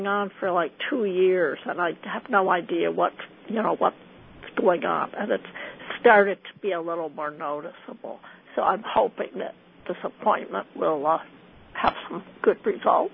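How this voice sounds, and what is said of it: Slightly altered, cold-like voice. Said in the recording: “that's a little bit with my speaking voice ... Your voice is a little different. ... I was wondering if maybe you had a cold or something.”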